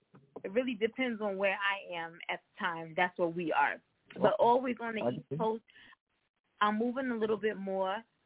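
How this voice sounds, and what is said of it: Northern US East Coast accent. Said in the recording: “I can hear the up north accent”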